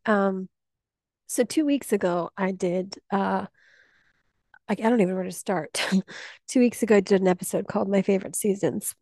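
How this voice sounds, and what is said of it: Voice sounding a little off. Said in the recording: “my voice sounds a little off, I'm still dealing with COVID, but I've also been doing a lot of crying this week”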